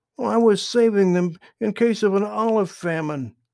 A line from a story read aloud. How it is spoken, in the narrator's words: exclaimed